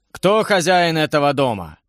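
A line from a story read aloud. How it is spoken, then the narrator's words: Menacing stern warrior asking. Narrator (Russian): грозно спросил суровый воин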